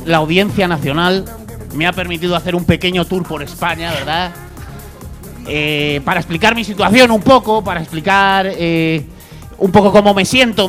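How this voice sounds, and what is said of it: Catalan accent in Spanish. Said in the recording (Spanish): “se me salta el acento catalán”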